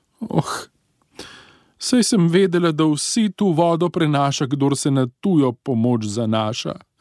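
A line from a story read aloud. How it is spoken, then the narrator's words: Crying. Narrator (Slovenian): je zajokala planšarica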